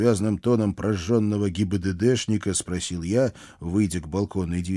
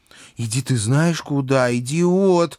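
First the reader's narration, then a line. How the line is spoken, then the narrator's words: Furious howl. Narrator (Russian): взвыла бесовка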